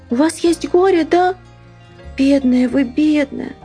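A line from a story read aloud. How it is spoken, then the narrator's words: Gentle child's voice. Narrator (Russian): сказанные нежным детским голосом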